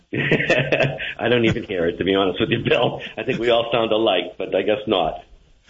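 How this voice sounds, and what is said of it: Boston accent. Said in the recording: “that Boston accent”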